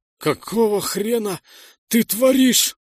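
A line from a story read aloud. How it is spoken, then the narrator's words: Hoarse croak. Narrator (Russian): прохрипел я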